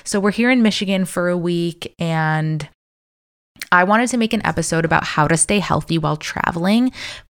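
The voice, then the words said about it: Slightly raspy voice. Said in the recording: “my voice is just like a little bit raspy from like singing and dancing and like screaming”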